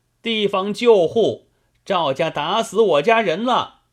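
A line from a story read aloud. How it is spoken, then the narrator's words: Several women shouting together, deafening. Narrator (Chinese): 朱长同那六七个妇人在岸边接应，一起喊叫，齐声震天动地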